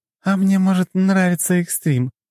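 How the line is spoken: Giggling. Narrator (Russian): хихикнула она

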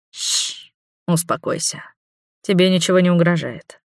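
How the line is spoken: Mesmerizing soothing voice. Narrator (Russian): завораживающим голосом произнес Хавьер

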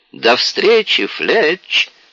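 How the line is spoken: Cheerful exclamation. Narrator (Russian): весело воскликнула Синди

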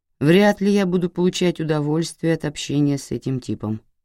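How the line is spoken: Gloomy. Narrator (Russian): Болдуин мрачно произнес

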